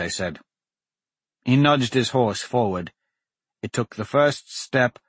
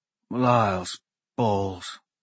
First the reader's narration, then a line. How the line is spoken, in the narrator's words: Dante sighed